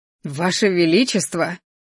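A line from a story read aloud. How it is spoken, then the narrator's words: Frightened gasp. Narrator (Russian): испуганно ахнул Рыжий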